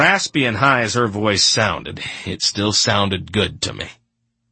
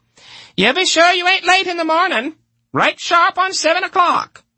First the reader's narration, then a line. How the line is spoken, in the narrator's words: Corcoran yelled after us